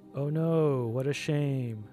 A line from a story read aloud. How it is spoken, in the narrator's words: Victoria said, dryly